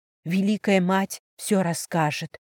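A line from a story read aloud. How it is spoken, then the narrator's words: Trembling whisper. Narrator (Russian): дрожащими губами прошептала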